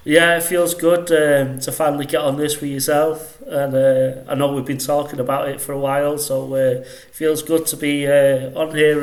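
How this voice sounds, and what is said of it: Northwest English Manchester accent. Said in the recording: “that delightful accent? That sounds like an accent from the northwest to me... I'm from Salford... just outside Manchester”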